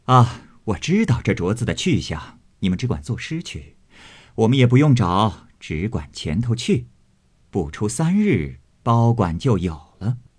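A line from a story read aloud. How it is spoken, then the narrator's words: Laughing. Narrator (Chinese): 凤姐儿笑道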